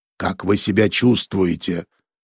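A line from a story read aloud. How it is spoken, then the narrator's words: Worried growl from above. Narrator (Russian): прорычал встревоженный голос сверху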